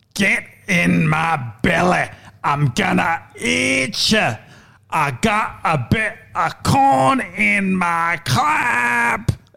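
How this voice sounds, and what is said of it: Fat Bastard impression. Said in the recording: “The fat bastard impersonation”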